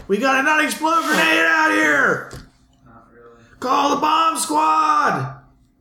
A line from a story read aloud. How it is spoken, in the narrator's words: The guys outside are yelling